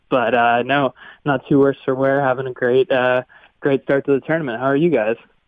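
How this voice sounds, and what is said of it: Congested voice. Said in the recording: “I have a little cold, so I apologize for my voice ... even with a chest cold or a head cold ... such a kind voice”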